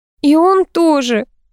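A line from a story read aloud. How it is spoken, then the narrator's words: Sobbing. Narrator (Russian): всхлипнула Алексеева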